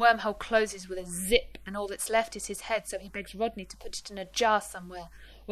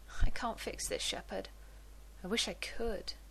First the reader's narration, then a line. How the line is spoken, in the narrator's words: Rodney says sadly